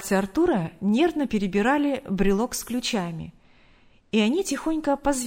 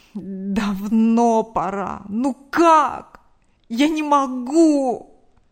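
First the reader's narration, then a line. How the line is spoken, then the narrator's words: Moaning. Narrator (Russian): Простонал мужчина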